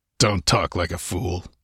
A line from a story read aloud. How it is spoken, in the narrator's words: he grunted